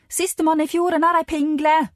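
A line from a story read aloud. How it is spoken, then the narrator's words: Screamed. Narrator (Norwegian): skriker Linn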